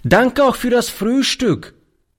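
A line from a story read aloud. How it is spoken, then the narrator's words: Calling while leaving. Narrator (German): rief er beim Hinausgehen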